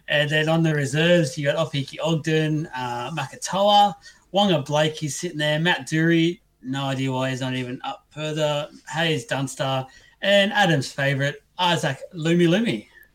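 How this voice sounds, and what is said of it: Put-on fancy accent. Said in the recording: “you put on a fancy accent there”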